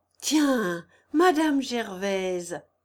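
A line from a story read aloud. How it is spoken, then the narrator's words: Beaming man exclaims. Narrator (French): s'écria-t-il, la face épanouie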